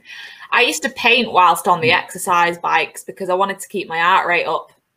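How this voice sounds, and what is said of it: Northern English accent. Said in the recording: “That works nicely with accent as well ... Representing the north. ... Only works in the north.”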